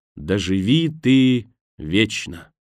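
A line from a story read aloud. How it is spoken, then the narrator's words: Solemn. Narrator (Russian): Кемпер торжественно произнесла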